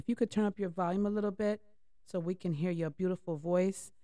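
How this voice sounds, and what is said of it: Strained, failing voice. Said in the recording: “My voice is going. ... My voice is going. I don't know why my voice is going.”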